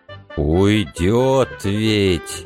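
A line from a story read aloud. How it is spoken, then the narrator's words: Drawled. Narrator (Russian): протянул Митька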